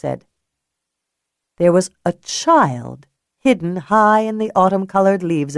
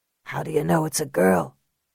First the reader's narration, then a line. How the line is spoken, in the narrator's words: Cal whispered to Earl